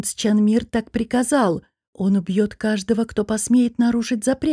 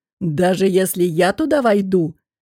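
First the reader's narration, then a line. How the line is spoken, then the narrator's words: Mocking question. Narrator (Russian): насмешливо спросил Шамир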